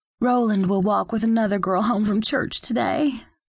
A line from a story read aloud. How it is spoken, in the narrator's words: sighs